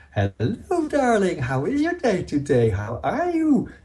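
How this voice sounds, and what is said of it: Exaggerated sing-song baby talk. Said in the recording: “baby talk ... sing-song ... very exaggerated, going up and down in pitch, high difference between high and low pitch and intonation ... smooth transitions”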